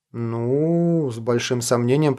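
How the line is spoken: Drawling. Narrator (Russian): протянул штурман

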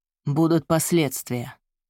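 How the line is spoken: Low, desperate, pleading. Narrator (Russian): произнес он низким голосом, но в словах звучало отчаяние, даже мольба

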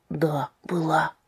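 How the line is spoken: Quiet agreement. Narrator (Russian): согласился Томас тихо

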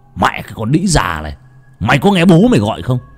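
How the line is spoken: Enraged man's yell. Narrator (Vietnamese): Người đàn ông hét lên

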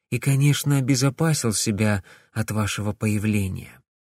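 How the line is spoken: Quiet. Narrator (Russian): тихо произнесла Камилла

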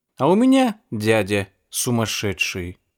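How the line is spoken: Calm voice. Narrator (Russian): говорил я спокойным голосом

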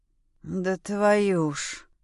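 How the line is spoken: Grumbled. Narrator (Russian): проворчал Максим

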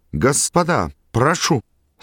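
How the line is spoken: Trembling exclamation. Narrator (Russian): секундант дрожащим голосом воскликнул

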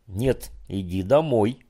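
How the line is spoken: Stern reply. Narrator (Russian): строго ответила женщина

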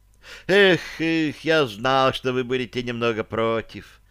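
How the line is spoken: Male sigh. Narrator (Russian): он вздохнул

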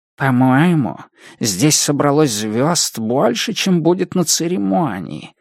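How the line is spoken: Whisper in ear. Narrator (Russian): прошептал он на ухо Пенни

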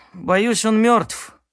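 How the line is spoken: Sigh. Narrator (Russian): вздохнул Херон

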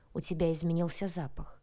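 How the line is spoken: Tense. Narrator (Russian): сказал он напряженным тоном

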